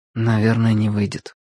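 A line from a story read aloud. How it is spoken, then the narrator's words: Quiet. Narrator (Russian): тихо сказал Владик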